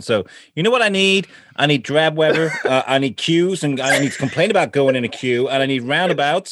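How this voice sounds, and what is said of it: Badly put-on accent. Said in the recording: “Do I have a southern accent? ... No. That's my awful accent. ... terrible.”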